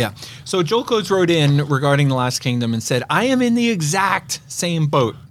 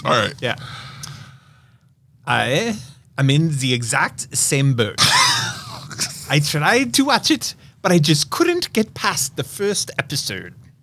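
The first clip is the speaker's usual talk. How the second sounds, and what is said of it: Imitates another person's accent. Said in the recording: “can you do his accent? ... Oh, you want me to do his accent?”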